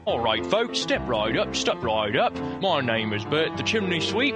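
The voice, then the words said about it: Poor put-on British accent. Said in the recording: “As you can tell, I have no idea what a British accent sounds like.”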